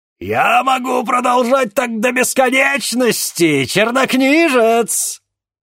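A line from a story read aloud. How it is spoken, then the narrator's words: Gloating scream. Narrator (Russian): злорадно вопил Алакабал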